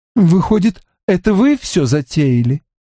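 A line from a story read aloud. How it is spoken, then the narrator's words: Dejected drawl. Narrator (Russian): уныло протянула Элинор Венс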